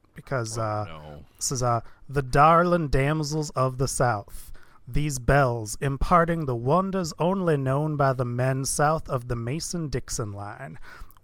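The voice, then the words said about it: Put-on Southern US accent. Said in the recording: “let me try on my little Southern accent”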